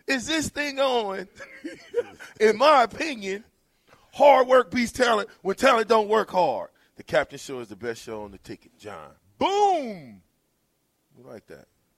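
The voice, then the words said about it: Imitates another person's voice. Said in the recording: “I got to do this in my VJ voice”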